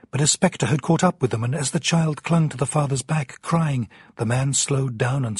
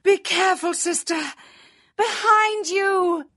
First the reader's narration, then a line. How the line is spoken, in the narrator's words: cried out